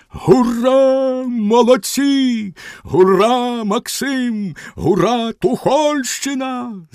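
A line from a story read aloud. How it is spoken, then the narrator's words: Defenders shouting together. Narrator (Ukrainian): закричали оборонці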